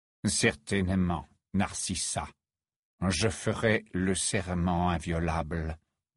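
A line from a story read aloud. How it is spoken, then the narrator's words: Low voice. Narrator (French): dit-il à voix basse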